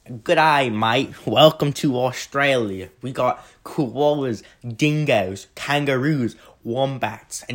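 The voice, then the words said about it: Attempted Australian accent. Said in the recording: “I can't do an Australian accent.”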